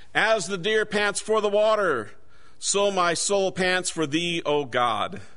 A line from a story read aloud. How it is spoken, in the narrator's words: The guide shouted